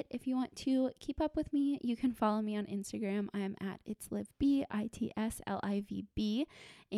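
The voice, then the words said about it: Strained, tired voice giving out. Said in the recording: “my voice is giving out now”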